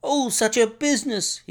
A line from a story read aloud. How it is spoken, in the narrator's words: he cried